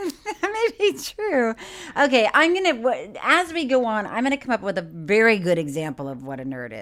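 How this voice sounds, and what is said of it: Usual voice. Nothing is said of it.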